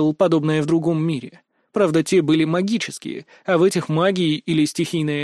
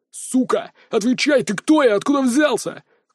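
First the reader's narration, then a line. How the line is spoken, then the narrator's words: Shouted. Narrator (Russian): крикнул второй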